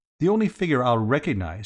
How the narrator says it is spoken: said Bicky firmly

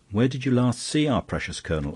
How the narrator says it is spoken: asked Flambeau irritably

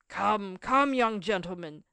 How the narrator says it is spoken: said one of the strangers in an authoritative tone

